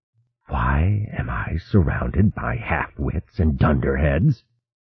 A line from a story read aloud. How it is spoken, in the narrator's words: He hissed